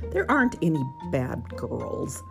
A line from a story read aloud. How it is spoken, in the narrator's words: laughed Uncle Wiggily